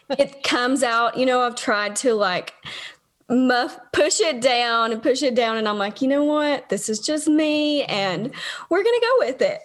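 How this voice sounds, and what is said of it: Tennessee Southern American accent. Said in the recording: “good old Tennessee accent”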